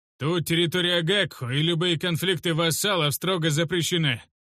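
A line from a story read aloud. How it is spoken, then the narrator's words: Loud bark. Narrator (Russian): громко рявкнул Урастухш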